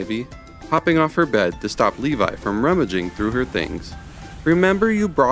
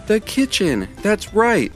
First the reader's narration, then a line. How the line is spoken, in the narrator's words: exclaimed Levi